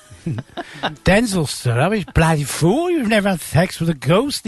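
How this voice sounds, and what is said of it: Impression of Jethro. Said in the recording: “Jethro was... It's a very good impression, actually.”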